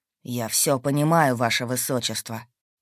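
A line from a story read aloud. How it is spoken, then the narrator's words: Through gritted teeth. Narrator (Russian): сквозь зубы ответил Хорген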